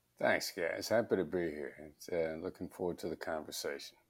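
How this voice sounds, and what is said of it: Smooth late-night DJ voice. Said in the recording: “he's already coming out with the late night DJ voice”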